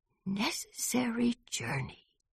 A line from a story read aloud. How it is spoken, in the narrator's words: whispered Baby